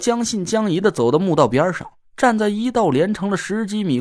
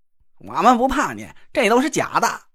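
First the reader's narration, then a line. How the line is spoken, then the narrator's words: Group shouting together. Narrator (Chinese): 几个人也跟着我一起大喊了起来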